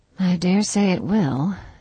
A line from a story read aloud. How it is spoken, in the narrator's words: said Anne gravely